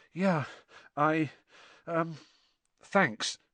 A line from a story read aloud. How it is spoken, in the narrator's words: said Harry, weakly